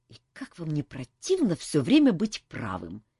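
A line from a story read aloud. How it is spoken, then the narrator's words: Angry exclamation. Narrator (Russian): сердито воскликнул Кантор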